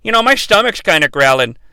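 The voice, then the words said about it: Peter Griffin cartoon character voice. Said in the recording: “I'm going to do my character voices ... Robin, for the last hour or so, has sounded like Peter Griffin. So he'll be Peter Griffin.”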